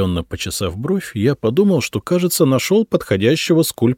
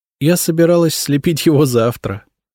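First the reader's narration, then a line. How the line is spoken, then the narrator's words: Laughing. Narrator (Russian): рассмеялась Елизавета Федоровна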